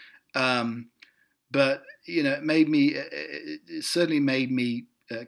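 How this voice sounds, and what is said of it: Usual voice. Nothing is said of it.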